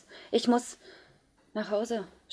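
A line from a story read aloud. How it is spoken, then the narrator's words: Stammering. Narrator (German): stotterte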